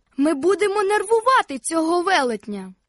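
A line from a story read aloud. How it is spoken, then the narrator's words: Male shout. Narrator (Ukrainian): крикнув він Фіппі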